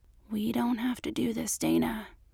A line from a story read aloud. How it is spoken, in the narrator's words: he whispered